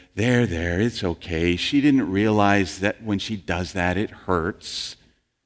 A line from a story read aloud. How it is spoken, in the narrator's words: said comfortingly to the boy